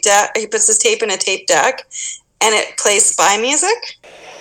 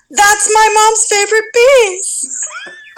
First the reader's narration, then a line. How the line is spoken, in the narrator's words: Mikey yells